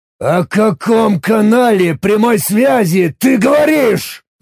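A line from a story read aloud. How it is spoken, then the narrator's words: Threatening roar. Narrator (Russian): угрожающе взревел я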